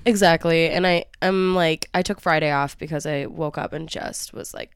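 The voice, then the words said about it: Stuffy, congested voice from a cold. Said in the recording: “I have a cold ... I've actually been very little cough and a lot, like, just stuffy”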